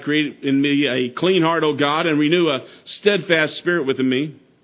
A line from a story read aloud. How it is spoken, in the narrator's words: David cried